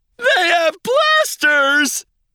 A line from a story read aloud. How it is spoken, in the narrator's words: yelled